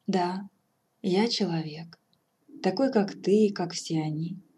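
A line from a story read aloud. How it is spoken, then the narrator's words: Sad reply. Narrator (Russian): грустно отвечал он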